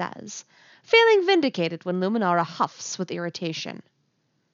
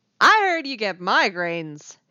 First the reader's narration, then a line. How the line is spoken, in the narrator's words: she shouts